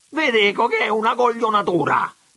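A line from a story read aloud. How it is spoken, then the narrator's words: Shouting again. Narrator (Italian): tornò a gridare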